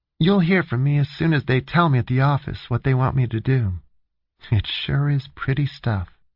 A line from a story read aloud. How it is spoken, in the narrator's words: Jane said dreamily